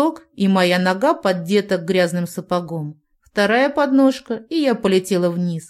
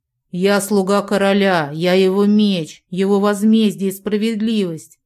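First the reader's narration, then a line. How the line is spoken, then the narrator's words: Hoarse growl in ear. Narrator (Russian): Хриплый голос рычал мне в ухо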